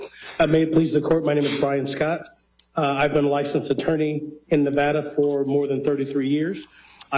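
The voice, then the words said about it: Slightly hoarse voice. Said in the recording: “Excuse my voice. I'm kind of running a little hoarse”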